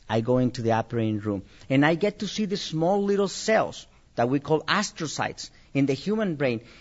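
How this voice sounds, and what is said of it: Mexican-accented English. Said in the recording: “you have an accent. You're here because you're Mexican. ... I have an accent”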